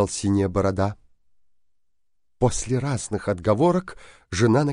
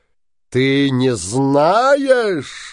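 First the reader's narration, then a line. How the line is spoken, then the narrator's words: Shouted. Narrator (Russian): закричал синяя борода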